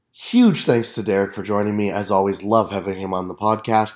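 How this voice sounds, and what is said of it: Sick voice with a cold. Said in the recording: “I don't know if you can hear in my voice. I am very sick right now. I'm getting the season-changing cold”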